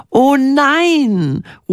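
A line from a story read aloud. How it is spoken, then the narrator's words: Dismayed exclamation. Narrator (German): ruft sie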